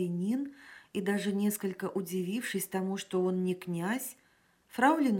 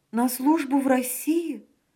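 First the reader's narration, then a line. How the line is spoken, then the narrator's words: Exclaimed. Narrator (Russian): воскликнула фрау Леноре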